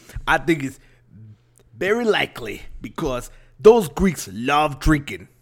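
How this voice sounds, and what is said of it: Put-on New York accent, drifting. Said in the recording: “New York Tony here ... the accent keeps changing ... slowly starting to sound like Dusty Rhodes of wrestling fame”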